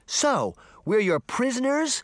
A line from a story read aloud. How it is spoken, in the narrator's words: Sabrina cried